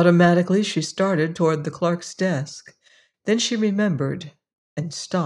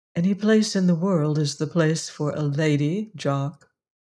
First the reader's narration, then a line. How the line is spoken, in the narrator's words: said Emma McChesney quietly